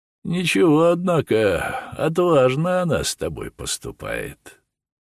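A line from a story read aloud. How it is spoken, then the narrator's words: Mocking group with laughter. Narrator (Russian): трунили над Сергеем арестанты, и особенно веселым хохотом заливалась Санетка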